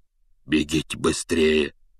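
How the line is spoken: Hoarse urgent command. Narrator (Russian): севшим голосом велел он

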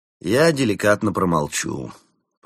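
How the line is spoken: Grumbling. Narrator (Russian): проворчал Константин

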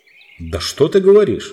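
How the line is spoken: Exclamation. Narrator (Russian): воскликнул Трюфлелов

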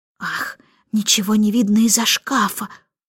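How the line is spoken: Mutter. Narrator (Russian): пробормотала она

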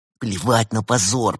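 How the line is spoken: Through gritted teeth. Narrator (Russian): процедил сквозь зубы Артем

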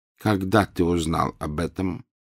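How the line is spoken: Plain. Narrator (Russian): спросил он

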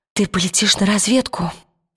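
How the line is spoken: Whisper. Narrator (Russian): прошептала она

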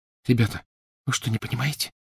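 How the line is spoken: Whispering. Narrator (Russian): прошептала Гермиона

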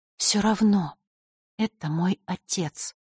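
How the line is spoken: Quiet. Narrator (Russian): тихо произнесла Василиса

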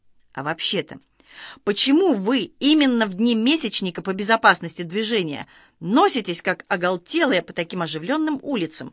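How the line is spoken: Angry question. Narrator (Russian): уже сердито спросил лейтенант

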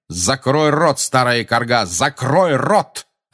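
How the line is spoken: Barked. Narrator (Russian): рявкнул он

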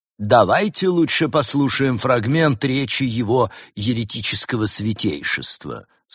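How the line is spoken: Plain. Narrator (Russian): сказал Еремия

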